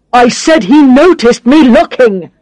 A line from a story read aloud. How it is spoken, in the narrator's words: shouts